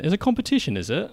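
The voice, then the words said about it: Put-on British accent. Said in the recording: “I've got a British accent. ... you really went very British”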